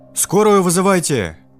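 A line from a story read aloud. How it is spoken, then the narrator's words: Yell. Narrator (Russian): Заорал кто-то из ребят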